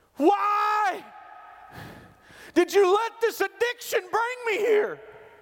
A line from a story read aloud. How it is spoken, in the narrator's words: she yelled at him